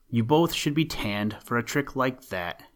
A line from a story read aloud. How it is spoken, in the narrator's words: said gravely